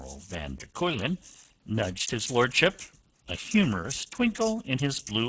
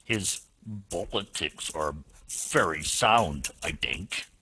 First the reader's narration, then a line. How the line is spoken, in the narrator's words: he growled